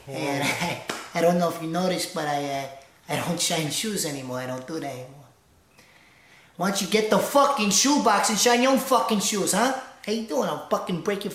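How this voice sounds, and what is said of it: Joe Pesci impression. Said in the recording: “Joe Pesci ... Joe is Austin Nasso, and he's a funny Joe ... I'm going to do some impressions for you guys.”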